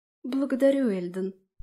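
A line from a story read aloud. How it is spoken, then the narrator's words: Timid babble, artist. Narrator (Russian): пролепетала художница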